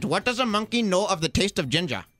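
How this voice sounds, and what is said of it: Put-on Punjabi accent. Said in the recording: “What is Punjabi? ... This is how you get into the accent.”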